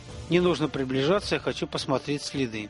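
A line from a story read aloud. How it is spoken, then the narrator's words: Plain. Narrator (Russian): сказал Виктор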